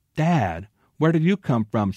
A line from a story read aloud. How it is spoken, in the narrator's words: she exclaimed